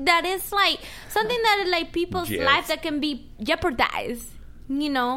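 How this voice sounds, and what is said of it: Speaks with a noticeable accent. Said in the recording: “I'm used to her accent.”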